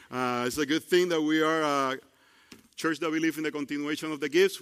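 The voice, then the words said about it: Non-native English accent. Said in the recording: “my accent and sometimes messing up the tenses ... from bad English to good English ... I'm pretty sure it will be in Spanish”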